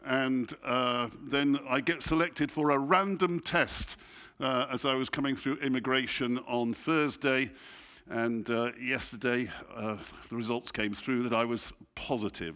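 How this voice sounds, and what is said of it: English accent. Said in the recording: “some of you think I have an accent. ... I'm English, and I speak English.”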